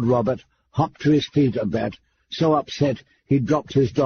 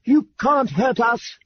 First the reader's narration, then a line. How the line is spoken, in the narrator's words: he screamed